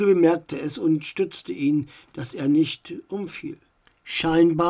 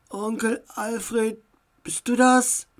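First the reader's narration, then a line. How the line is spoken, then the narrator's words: Strange tired voice. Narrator (German): Max' Stimme klang irgendwie seltsam und müde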